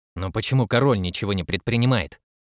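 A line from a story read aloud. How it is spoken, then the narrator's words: Plain question. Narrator (Russian): спросил отец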